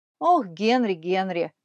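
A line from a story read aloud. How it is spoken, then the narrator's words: Sighing again. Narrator (Russian): снова вздохнула миссис Смит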